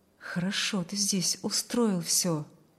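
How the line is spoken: In an undertone. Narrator (Russian): проговорил он вполголоса

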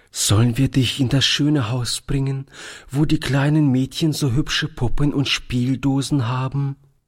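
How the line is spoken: Trembling voice. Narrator (German): fragte Toni mit zitternder Stimme

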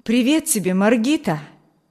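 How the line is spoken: Exclamation. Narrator (Russian): воскликнул

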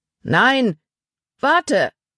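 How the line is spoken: Calling after someone. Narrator (German): rief Paul ihm nach

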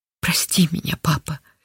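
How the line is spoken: Whisper. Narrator (Russian): шептала Линда

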